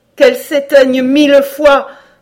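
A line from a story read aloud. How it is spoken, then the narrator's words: Horrified exclamation. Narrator (French): s'écria Cora, saisie d'horreur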